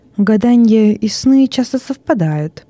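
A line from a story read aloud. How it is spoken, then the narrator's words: Plain. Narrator (Russian): сказал Вестин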